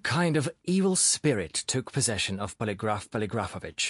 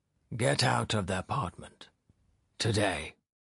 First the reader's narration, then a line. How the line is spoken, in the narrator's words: repeated in a monotone